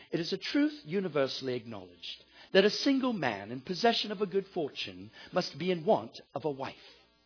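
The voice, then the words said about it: Put-on accent reading a line. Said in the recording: “you got to do this one with the accent.”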